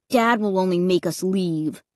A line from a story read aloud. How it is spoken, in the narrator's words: Luke grumbled